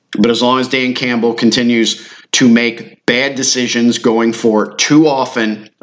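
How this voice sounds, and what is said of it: Dry, worn-out voice. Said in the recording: “I need a beverage anyway. You can hear it in my voice.”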